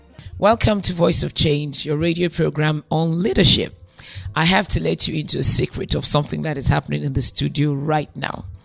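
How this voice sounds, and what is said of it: Hoarse, croaking voice. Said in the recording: “my voice is the way it is from the summit in London on Saturday ... you're just going to have to deal with the voice ... her voice is croaking”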